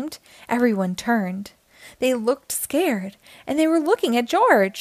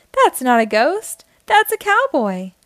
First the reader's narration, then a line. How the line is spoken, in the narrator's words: laughed a policeman